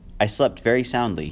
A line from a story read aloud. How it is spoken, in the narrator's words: said